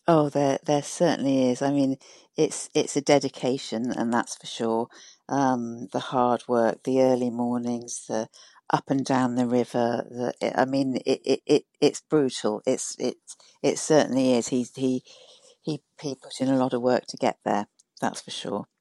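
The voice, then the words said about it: British accent, not Irish. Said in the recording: “that's not exactly a West Cork accent ... I'm from the UK”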